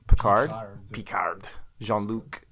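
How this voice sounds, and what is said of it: Put-on French accent. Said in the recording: “In a French accent.”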